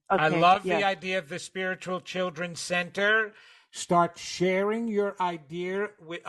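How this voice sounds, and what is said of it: New York accent. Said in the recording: “my New York accent just came in”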